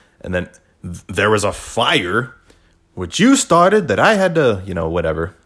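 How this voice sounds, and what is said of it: Usual voice. Nothing is said of it.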